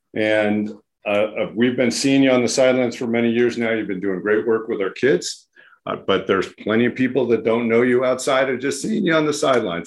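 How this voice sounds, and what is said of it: Strained, fading hoarse voice. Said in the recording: “my voice is going already”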